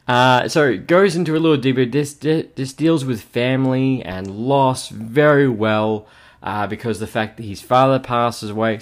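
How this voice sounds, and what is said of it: Slightly hoarse, sore-throated voice. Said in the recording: “If my voice sounds a little funny ... my throat's a little bit sore. So if I sound a little bit funny, more than usual”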